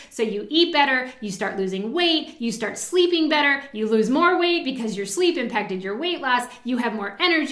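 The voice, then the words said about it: Excited, enthusiastic voice. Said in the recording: “you probably hear it in my voice right now, but I do. I get really excited about what I do.”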